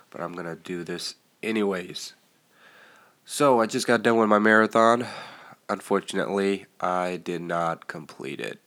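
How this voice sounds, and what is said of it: Congested, nasal voice. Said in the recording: “my nasal is pretty congested ... I sound terrible”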